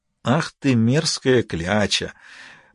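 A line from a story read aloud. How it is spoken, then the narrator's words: Muttered. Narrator (Russian): пробормотал Ваэлин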